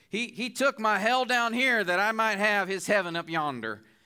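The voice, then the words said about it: Impression of J. Vernon McGee's accent. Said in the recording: “I don't think I can do justice to his accent, ... Now, I know Vincent Green could do a much better job with that than I just did”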